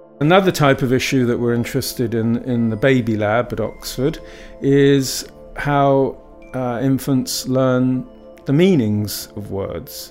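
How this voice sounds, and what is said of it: Southern British English accent. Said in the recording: “I'm using it in a southern British English accent”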